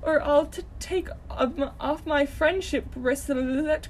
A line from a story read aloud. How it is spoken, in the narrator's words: cried Deku sniffingly